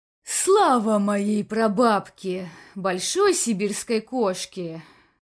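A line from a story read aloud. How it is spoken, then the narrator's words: Relieved sigh. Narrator (Russian): Вздохнул с облегчением инспектор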